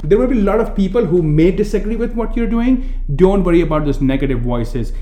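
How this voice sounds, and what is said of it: Thick Indian accent. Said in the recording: “you're Indian with a thick accent”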